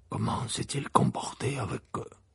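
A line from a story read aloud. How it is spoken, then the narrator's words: Asked in low voice. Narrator (French): demanda Maugré à voix basse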